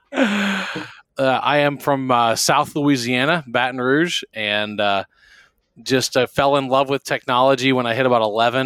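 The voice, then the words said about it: Rich radio-style voice. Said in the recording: “you have a great radio voice”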